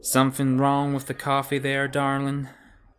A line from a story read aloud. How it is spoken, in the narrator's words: she said, her lazy drawl making it more of an accusation than a question